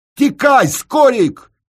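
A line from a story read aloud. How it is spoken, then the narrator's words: Sudden female shout. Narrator (Russian): Ташка вдруг крикнула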